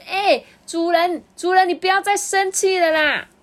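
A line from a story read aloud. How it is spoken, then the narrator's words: Laborer shouting. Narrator (Chinese): 这长工大叫说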